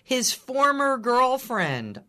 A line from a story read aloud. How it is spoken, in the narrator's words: yelled back